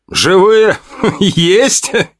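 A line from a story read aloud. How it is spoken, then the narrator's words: Laughing question. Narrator (Russian): с хохотом спросил я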